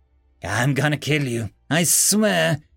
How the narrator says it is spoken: he said in a tired, weak voice

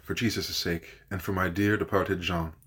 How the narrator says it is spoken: she whispered

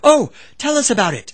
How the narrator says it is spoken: Several women exclaimed at once

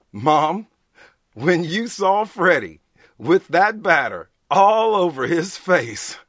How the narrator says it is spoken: Tracy screamed, and the veins throbbed in his neck from laughing

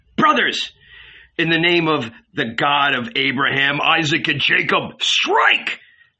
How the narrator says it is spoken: howled the consumptive Levite

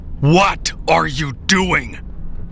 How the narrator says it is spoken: I shouted at him

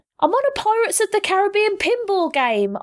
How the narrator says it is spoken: Aisha yelled to everyone and no one at once

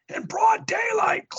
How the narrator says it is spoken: Cloud yells

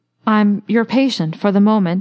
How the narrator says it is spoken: he added stammeringly

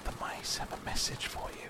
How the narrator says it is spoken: he whispered

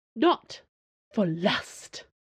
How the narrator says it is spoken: Madame Sue hissed

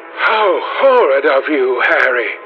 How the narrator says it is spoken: cried the Duchess

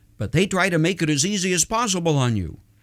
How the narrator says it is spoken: trying to minimize the issue quickly, he added

